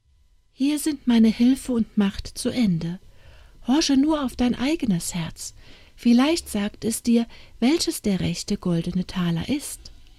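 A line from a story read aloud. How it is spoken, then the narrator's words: Little man, sad. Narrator (German): Das Männlein sprach traurig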